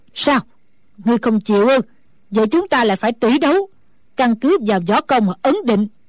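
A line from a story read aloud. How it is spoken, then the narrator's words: Angry shout. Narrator (Vietnamese): Sử Bà Bà tức giận quát lên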